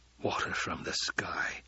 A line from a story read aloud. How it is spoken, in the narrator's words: Stilgar whispered